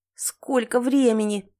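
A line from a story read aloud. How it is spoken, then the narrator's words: Grumbled. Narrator (Russian): пробурчала я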